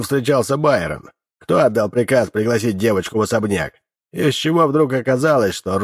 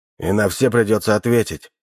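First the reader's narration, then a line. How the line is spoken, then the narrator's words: Gruff mutter. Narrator (Russian): буркнул Коска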